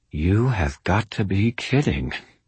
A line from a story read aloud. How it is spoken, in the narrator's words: whispered through my smiling teeth